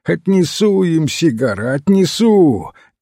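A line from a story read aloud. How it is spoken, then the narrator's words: Shouting. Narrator (Russian): крикнул он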